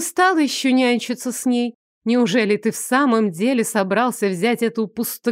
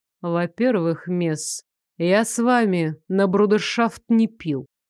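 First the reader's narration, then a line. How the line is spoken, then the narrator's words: Icy, clipped enunciation. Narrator (Russian): ледяным тоном отчеканил Лоренс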